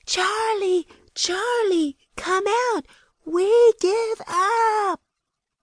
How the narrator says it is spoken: We all shouted together

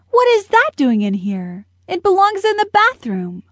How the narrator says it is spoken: his mom exclaimed

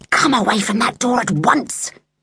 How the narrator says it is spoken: Mum hissed from the kitchen

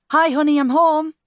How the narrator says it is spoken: called out

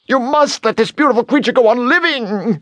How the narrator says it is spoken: the bone yelled

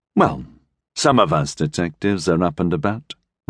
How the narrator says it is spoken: Reinhardt said, smiling, his voice soft

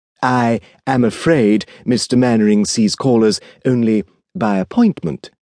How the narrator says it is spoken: replied the Edwardian exquisite in his beautifully modulated voice

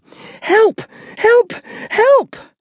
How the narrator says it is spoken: the girl running down the stairs and screaming

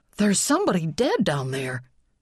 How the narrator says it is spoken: Charlie gasped

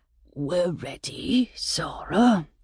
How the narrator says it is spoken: Father whispered, his voice reduced by the silence that governed him

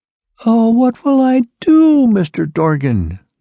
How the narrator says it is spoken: wailed

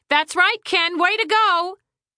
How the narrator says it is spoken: Eleanor Lathrop Winfield shouted

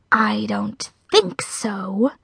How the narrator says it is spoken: hissed the spider

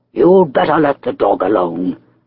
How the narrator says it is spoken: growled Mr

